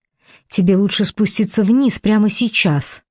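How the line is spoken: Quiet growl. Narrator (Russian): тихо рычит она

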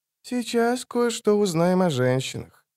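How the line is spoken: Grumbling. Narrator (Russian): буркнул Регис

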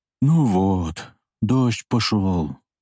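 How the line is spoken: Quiet speech. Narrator (Russian): тихо сказал Михаил

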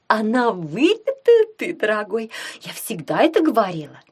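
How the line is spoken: Cooing. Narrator (Russian): проворковала

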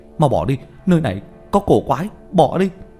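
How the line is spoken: Loud raised call. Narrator (Vietnamese): cao giọng kêu lên

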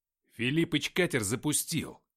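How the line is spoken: Snapping back. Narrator (Russian): огрызнулся в ответ

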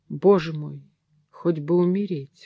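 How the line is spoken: Whisper. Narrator (Russian): шептала она

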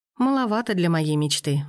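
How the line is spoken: Sigh with a smile. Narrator (Russian): вздохнула она, но улыбнулась

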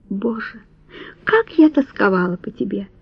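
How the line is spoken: Woman whispering. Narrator (Russian): прошептала она

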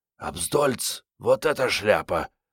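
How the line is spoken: Horrified whisper. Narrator (Russian): с долей ужаса прошептала Мариетта

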